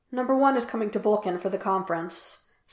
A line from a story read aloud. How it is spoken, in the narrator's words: Spock said, and he did not pick at his cuticles or smooth his hand over his thighs or speak too quickly